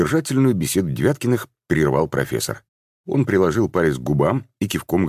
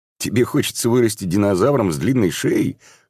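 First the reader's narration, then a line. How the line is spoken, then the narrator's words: Chuckling. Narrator (Russian): хохотнул Макс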